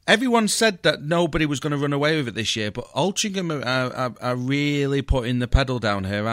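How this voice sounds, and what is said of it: Usual voice. Nothing is said of it.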